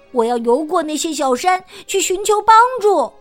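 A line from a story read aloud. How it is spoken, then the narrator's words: Sudden shout. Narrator (Chinese): 弗洛格突然大叫起来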